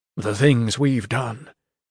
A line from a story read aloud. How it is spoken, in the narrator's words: he murmured